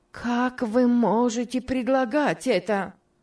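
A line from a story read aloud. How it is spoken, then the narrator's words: Exclaiming. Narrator (Russian): воскликнула Мари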